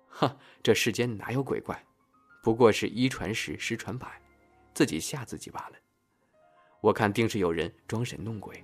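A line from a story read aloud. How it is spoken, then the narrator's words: Amused, dismissive. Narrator (Chinese): 赵生听到乡里乡亲的流言，哑然一笑，说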